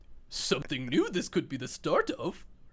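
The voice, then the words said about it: Yoda impression, inverted word order. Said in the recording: “I can do ... Yoda ... That's a good one.”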